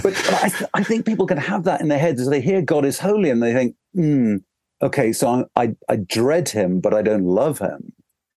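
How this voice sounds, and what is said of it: Accent that sounds snobbish. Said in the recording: “this accent that sounds like I'm being snobbish in the way I speak”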